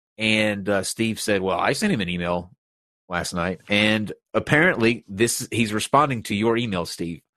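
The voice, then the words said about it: Stuffed-up, congested voice. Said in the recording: “My allergies are messing with me today, so I sound really stuffed up.”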